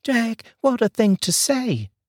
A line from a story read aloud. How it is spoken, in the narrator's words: exclaimed Wanda